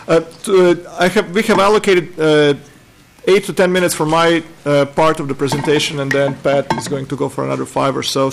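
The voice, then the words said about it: Croatian accent in English. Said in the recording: “my accent is not from Minnesota. I'm originally from Croatia.”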